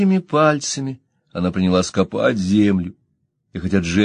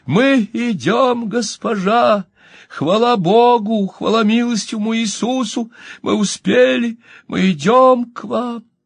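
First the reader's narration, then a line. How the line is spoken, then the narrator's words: Screaming. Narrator (Russian): она закричала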